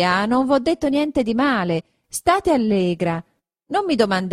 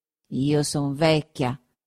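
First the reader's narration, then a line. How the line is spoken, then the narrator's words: Muttering through teeth. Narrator (Italian): continuò mormorando tra i denti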